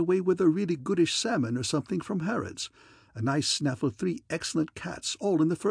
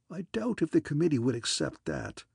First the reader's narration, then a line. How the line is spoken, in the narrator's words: he said sadly